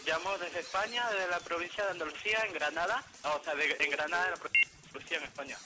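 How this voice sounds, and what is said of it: Peruvian speaker with Spanish accent. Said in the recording (Spanish): “ya se te ha pegado ya ese acento español”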